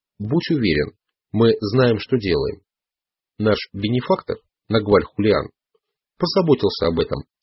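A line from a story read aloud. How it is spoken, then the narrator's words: Plain. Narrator (Russian): сказал Дон Хуан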